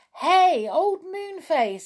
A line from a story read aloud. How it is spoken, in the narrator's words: he shouted